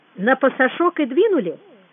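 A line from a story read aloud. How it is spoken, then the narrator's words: Cheerful. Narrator (Russian): сказал он весело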